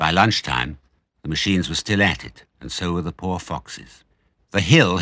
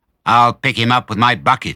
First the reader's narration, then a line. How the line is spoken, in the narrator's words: shouted Bunce